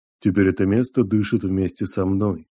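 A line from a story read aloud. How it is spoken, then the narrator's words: Calm. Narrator (Russian): произнес он спокойно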